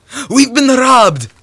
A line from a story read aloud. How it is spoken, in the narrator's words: cried Zaniel